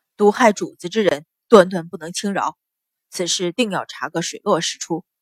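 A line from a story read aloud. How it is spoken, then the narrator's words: Deep, grave voice. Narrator (Chinese): 阮一鸣听得脸上变色，沉声道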